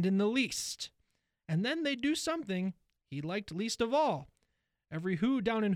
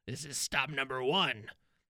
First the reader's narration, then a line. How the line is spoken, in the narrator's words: the old Grinchy Claus hissed